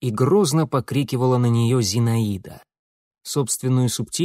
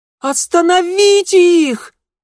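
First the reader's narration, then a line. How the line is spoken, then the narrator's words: Ear-piercing shriek. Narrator (Russian): От визга зазвенело в ушах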